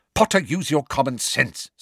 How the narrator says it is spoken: snapped Professor McGonagall with an abrupt return to her usual manner

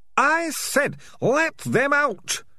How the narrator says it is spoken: screamed Ham and Pork

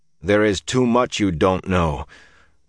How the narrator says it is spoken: Perrin muttered

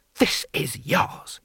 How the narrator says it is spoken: he hissed

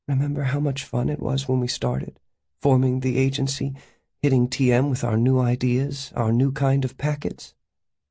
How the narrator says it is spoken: Wistfully, said

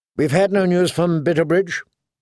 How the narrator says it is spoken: she asked anxiously

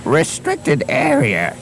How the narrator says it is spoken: he wheezed

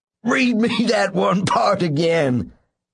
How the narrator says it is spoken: he said finally in a choked voice

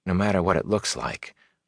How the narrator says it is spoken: a small voice whispered in his mind

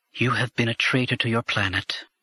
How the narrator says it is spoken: said in a flat voice

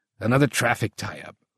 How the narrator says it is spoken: Fowler snorted

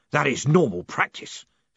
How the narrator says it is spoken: snapped Gilt

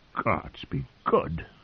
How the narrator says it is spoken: he said in a choked voice

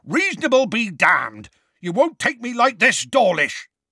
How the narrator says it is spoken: Hagrid roared

